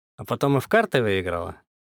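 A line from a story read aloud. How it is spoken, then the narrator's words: Quick snide interjection. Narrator (Russian): быстро вставил я, ехидно усмехнувшись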